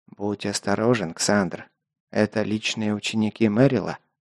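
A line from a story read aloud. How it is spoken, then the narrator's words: Quiet. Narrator (Russian): тихо проговорил майор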